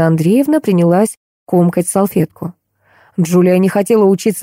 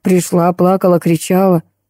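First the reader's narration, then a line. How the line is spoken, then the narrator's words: Snort. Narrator (Russian): хмыкнула Катерина Андреевна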